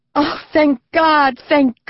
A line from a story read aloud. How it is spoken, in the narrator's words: Ma Fanny cried